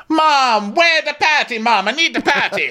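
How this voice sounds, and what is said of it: Wonky put-on Jamaican accent. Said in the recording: “she breaks out in a really thick accent ... my Jamaican accent so is all wonky ... we have terrible ... I'm not even gonna try for a proper one”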